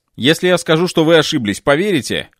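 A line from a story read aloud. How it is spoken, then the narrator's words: Wry smirking remark. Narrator (Russian): хмыкнул я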